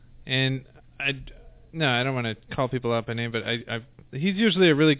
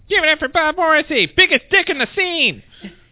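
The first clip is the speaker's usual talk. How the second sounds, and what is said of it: Impression of a comedy show host. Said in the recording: “best impression ever”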